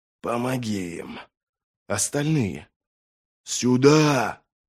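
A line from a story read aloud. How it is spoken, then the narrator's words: Hoarse rasp. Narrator (Russian): маг прохрипел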